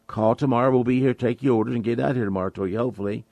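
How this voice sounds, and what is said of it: Strained voice that comes and goes. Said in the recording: “excuse my voice. It comes and goes a little bit.”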